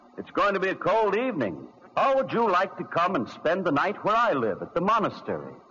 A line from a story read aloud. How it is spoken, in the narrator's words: he smiled at him and called out